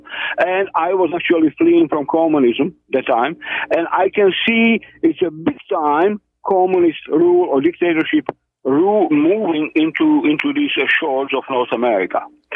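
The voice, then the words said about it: Noticeable foreign accent. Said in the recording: “According to my accent, you can probably tell where I came from.”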